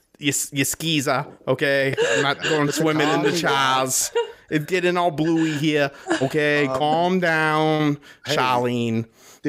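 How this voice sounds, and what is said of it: Bad put-on Boston accent. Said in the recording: “Boston accent? ... Yeah, it's bad.”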